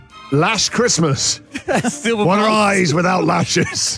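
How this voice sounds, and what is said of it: Put-on Scottish accent. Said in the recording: “I don't know why I've got Scottish accent there.”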